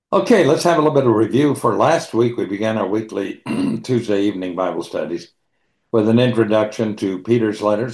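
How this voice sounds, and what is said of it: Slightly hoarse, throaty voice. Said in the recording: “I've got a little frog in my throat ... it causes me to have a little tickle in the throat.”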